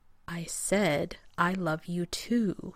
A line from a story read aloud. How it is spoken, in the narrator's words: he repeated slowly as if talking to a child, or to a moronic genius